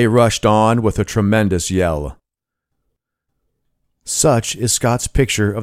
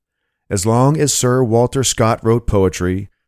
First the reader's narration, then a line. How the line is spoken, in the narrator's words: said a friend